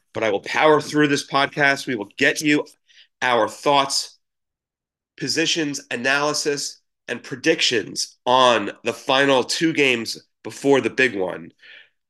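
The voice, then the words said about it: Sick, congested-sounding voice. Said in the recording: “as you can hear in my voice, I'm slightly under the weather, recovering from a head cold”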